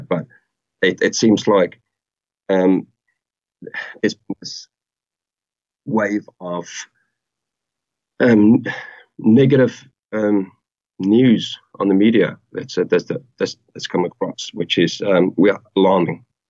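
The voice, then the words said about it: Accent with non-New Zealand element. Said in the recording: “I can hear the, you know, the non-Kiwi element of your accent.”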